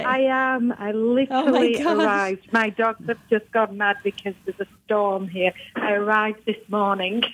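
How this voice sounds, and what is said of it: British accent. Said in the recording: “does have an accent. She's from the UK.”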